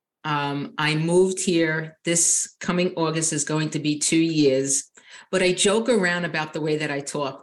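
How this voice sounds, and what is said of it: Long Island New York accent. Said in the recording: “Long Island, New York ... you have not lost much of your accent.”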